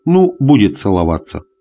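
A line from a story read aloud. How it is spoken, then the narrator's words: Plain. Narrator (Russian): сказала Надя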